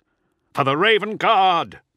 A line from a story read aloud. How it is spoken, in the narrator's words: cried